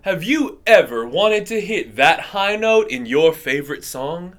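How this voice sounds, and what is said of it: Announcer-style radio voice. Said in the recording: “I'm going to use my best radio voice”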